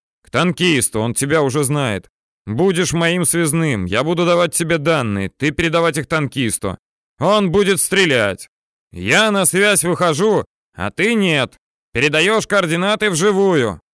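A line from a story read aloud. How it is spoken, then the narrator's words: Yelling. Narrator (Russian): орал подсотенный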